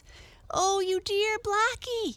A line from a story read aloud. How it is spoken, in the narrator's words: cried Arthur